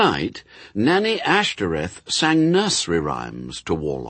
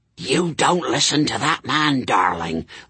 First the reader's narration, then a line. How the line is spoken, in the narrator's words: the nanny would whisper